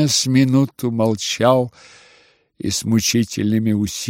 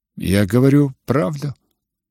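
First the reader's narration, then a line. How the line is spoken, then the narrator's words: Perfectly imperturbable tone. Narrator (Russian): отвечал прежним, совершенно невозмутимым тоном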